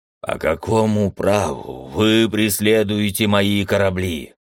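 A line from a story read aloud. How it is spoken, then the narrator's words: Strained croak. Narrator (Russian): Командор с трудом преодолел наваждение, сглотнул слюну и прохрипел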